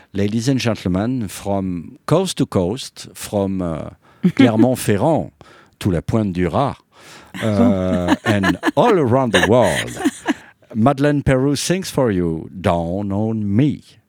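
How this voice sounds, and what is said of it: Mock English announcer accent. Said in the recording (French): “Il est pas bon mon accent. ... C'est mignon.”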